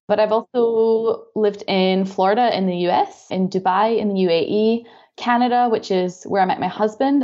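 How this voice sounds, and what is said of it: Scottish accent. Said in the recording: “I'm from Scotland, as you can probably tell from my accent.”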